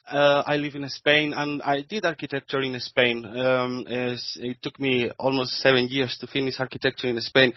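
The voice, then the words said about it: Spanish accent. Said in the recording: “I'm Spanish, as you can say for my accent.”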